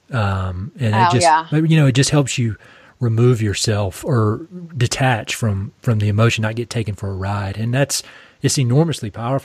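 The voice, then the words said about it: Eastern North Carolina Southern accent. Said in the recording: “I'm from Eastern North Carolina. You can hear my accent.”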